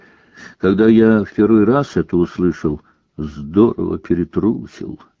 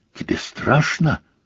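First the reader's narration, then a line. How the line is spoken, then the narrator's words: Whispering. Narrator (Russian): прошептала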